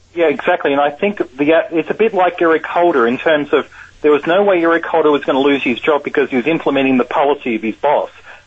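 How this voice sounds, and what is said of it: Australian accent. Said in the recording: “I can't help but notice your accent. ... the accent's from Australia. ... You've lost a little of it.”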